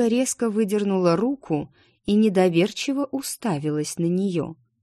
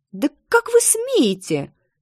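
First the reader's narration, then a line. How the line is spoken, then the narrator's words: Shriek. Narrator (Russian): взвизгнула она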